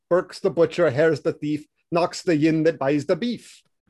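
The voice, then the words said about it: Convincing put-on Scottish accent. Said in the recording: “break out the Scottish accent because you're the one who's capable of it. And you did not disappoint.”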